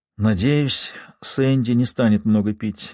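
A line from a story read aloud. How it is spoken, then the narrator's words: Sigh. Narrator (Russian): вздохнула миссис Дуглас Хьюз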